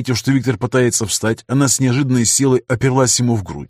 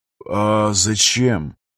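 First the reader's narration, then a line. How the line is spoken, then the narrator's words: Managed mumble. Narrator (Russian): Сумел пробормотать Афанасьев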